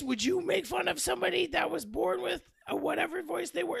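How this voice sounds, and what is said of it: Raspy demon character voice. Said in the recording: “the raspiness of your voice makes it kind of hard to understand ... my voice is raspy ... I'm a demon. ... it sounds stupid as fuck”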